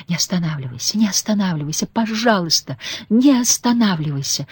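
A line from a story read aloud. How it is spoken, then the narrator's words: Feverish whisper. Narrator (Russian): лихорадочно шептала она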